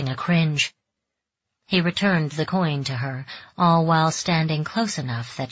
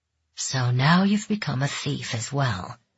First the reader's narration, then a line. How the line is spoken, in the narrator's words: he said softly